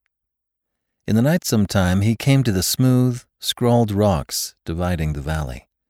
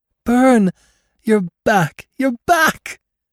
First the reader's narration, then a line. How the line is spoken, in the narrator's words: she cried in joy that rang of her loneliness